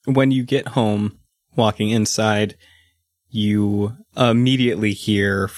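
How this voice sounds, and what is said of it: Usual voice. Nothing is said of it.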